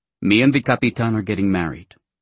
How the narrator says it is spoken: she said curtly

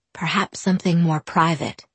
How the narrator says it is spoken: he insisted quietly

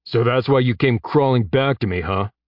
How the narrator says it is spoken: Eddie said, sneering

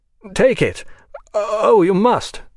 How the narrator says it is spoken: he stammered

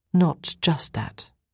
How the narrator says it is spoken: I said quietly

